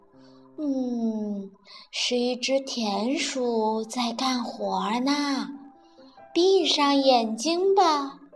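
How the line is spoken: Mumbling. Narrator (Chinese): 巴蒂嘟囔着

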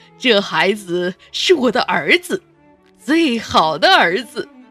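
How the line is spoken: Loud. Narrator (Chinese): 爸爸大声的继续说

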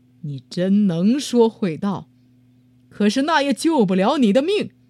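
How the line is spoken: Beast roaring, unmoved. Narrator (Chinese): 野兽一点也不为他的话所动，又吼道

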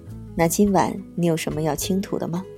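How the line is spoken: Sly grinning. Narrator (Chinese): 大叔坏笑道

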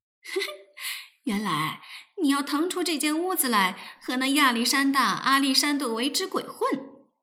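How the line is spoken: Giggling gleefully. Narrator (Chinese): 咯咯的笑了起来，拍手道

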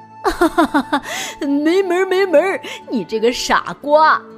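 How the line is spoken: Mocking group. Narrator (Chinese): 大家都嘲笑他说

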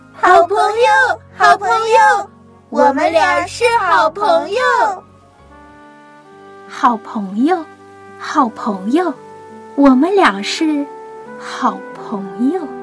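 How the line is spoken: Joyful shouting. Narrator (Chinese): 蓉蓉和点点一边飞转，一边开心的大喊着

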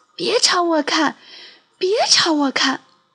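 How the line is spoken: Whispering. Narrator (Chinese): 皮卡小声说

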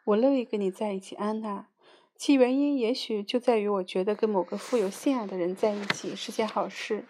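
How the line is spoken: Laughing, pausing. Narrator (Chinese): 他笑着，沉默了一会儿，接着又笑了起来，说

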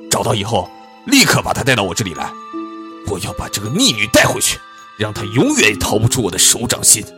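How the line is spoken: Furious roar. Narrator (Chinese): 暴怒的伊文清怒吼道

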